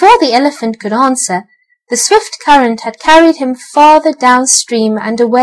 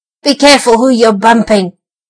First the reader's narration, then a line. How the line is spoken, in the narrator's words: snarled the rat